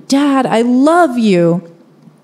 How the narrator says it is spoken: I yell towards my dad

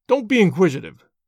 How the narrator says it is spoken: snapped the old man

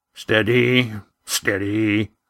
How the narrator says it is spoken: Roaring Jack's voice was softer now, almost as if he were talking to himself

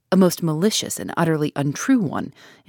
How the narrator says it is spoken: interrupted Alfred Inglethorpe in an agitated voice

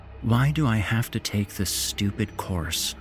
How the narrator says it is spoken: sighs

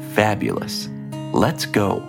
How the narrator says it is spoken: Sean exclaimed, swimming around Shayla excitedly

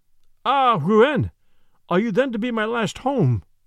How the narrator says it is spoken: exclaimed

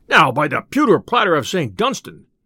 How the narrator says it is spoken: cried the tinker

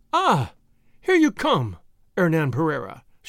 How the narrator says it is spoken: she cried

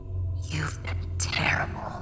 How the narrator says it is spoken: he hissed

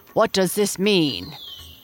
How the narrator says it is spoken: roared the headman

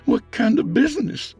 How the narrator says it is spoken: Micah asked timidly

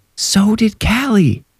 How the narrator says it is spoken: Irene yelled in a whisper

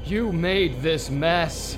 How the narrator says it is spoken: The man kept shouting over and over

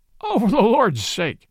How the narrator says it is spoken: cried the police detective, laughing

